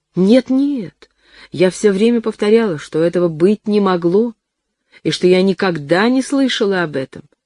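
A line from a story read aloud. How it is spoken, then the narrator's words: Hasty exclamation. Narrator (Russian): поспешно воскликнула Лёля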